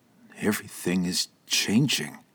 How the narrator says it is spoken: the medical examiner quietly mumbled

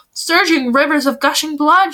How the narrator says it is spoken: she cried

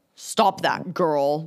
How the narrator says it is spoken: the captain snapped

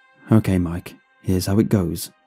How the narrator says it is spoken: I said calmly

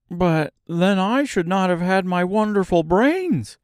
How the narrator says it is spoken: cried the Scarecrow

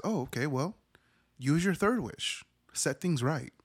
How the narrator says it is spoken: the djinn just ever so calmly says

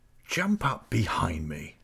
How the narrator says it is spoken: whispered

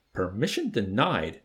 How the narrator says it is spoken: Major snapped

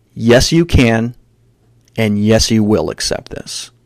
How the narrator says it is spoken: He firmly said to me

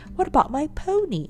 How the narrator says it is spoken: asked Joe anxiously

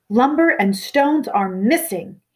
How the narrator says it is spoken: thundered

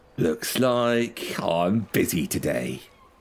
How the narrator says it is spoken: That witch hunter that was goading you sneers in your direction and says

